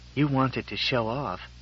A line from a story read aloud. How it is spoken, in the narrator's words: She whispered